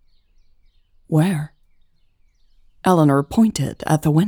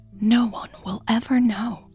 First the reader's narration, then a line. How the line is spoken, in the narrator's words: Eleanor whispered dramatically